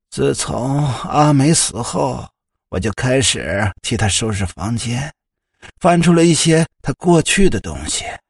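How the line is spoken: Sighing. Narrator (Chinese): 夏母叹了口气 他叹息着说

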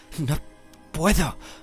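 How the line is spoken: Panting reply. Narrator (Spanish): respondía jadeando Harry, que hacía lo imposible por no hundirse

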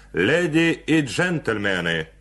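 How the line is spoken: Loud, clear shout. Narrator (Russian): выкрикнул он громко и отчетливо

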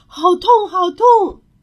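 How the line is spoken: Pained wailing. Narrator (Chinese): 球球痛得哇哇大叫

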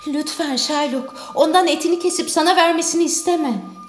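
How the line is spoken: Pleading. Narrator (Turkish): diye yalvardı Salerio

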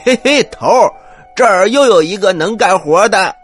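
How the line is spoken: Loud call. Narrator (Chinese): 一个官兵 立刻大声的说

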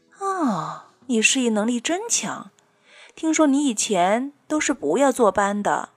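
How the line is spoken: Admiring. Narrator (Chinese): 同事叹服

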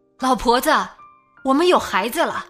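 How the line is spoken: Calling out. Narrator (Chinese): 对妻子喊

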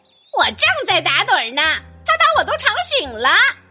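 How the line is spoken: Angry clucking hen. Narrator (Chinese): 母鸡海蒂生气的咯咯叫着

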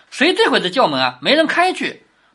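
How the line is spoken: Laughing. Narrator (Chinese): 袭人笑着说

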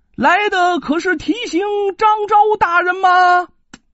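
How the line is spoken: Loud shout. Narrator (Chinese): 高声喊道

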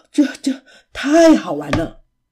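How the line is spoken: Breathless. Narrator (Chinese): 琪琪喘着气说

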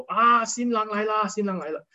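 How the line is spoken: Shouting. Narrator (Chinese): 家人喊说

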